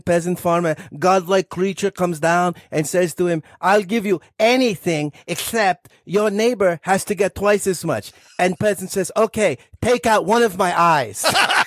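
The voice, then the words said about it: Put-on Slovenian accent. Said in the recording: “your Slovenian accent is stunning”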